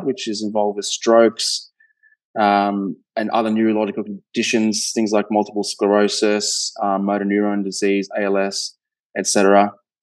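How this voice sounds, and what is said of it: Australian accent. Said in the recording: “being Australian, I'm sure you can hear the accent”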